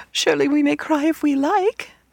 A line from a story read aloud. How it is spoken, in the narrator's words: they sobbed